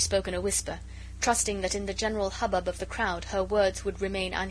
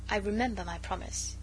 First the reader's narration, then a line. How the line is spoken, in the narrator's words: he said quietly